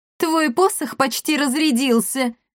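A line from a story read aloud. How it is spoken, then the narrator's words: Loud laughter. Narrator (Russian): расхохоталась Левтина Маркус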